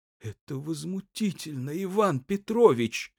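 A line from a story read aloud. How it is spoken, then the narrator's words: Tearful voice. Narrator (Russian): заговорил плачущим голосом Грохольский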